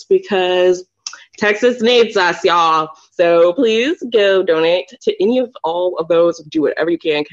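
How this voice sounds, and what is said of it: Exaggerated put-on Southern accent. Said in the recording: “Did you just put on like an extra ... Southern ... accent?”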